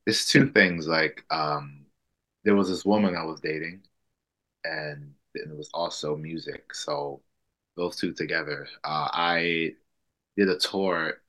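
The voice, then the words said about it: New Orleans American accent. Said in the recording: “I can hear your accent. I've talked about New Orleans.”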